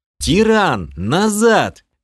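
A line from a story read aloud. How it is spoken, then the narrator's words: Shouted. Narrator (Russian): крикнул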